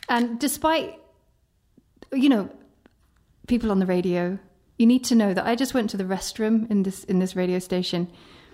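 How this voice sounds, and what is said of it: British accent. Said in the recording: “Originally from the UK, as you will tell by my accent.”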